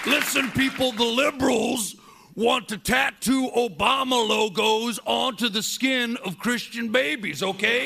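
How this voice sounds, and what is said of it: Blustering conservative radio host character voice. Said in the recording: “He's doing his Tuck Buckford impersonation”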